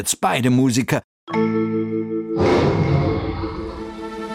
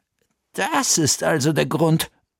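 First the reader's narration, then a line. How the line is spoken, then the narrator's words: Murmuring. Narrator (German): murmelte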